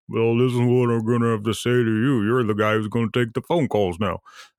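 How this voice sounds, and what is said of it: Imitates another person's voice. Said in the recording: “my Mitch McConnell impersonation.”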